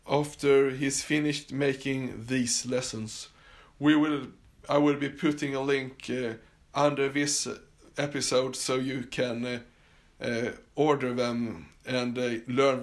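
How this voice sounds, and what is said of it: Swedish accent in English. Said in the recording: “I'm Swedish and my accent was pretty thick, and I'm probably getting better at it. But you could definitely hear that I was born and raised in Sweden”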